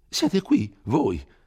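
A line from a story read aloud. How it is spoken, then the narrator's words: Exclamation. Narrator (Italian): esclamò Don Abbondio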